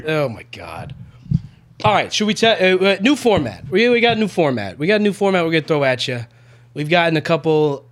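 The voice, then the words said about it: Announcer-style show host voice. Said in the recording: “You sound like a host.”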